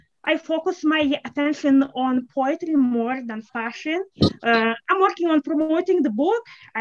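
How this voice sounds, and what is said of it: Eastern European accent. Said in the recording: “You have an enchanting accent. ... It's from Eastern Europe.”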